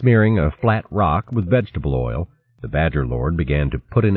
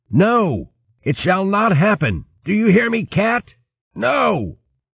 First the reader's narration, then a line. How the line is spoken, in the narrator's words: he awoke shouting